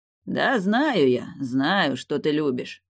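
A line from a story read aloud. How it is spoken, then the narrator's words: Good-natured booming, innkeeper. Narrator (Russian): Добродушно прогудел корчмарь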